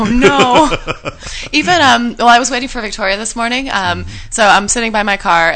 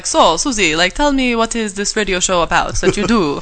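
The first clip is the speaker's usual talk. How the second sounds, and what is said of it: Attempted Israeli accent. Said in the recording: “That's not an Israeli accent”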